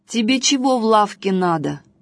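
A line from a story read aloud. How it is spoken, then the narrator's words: Rude, angry question. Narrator (Russian): грубо спросил лавочник, рассерженный тем, что Василек хочет ему бороду отрезать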